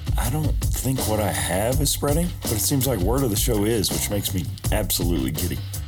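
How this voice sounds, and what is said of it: Sick, strained voice. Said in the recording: “my voice is not cooperating right now. I'm a bit under the weather”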